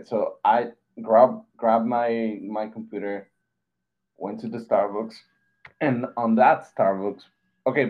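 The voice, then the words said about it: Non-native English accent. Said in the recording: “my English wasn't that good ... As you can tell, I have an accent”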